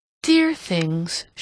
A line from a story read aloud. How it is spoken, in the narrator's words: she exclaimed